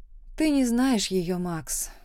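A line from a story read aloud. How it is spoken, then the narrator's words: Calm answer. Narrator (Russian): спокойно ответила я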